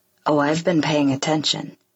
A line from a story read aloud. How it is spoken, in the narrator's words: he says